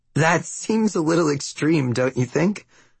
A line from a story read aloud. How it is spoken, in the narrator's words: say with a nervous laugh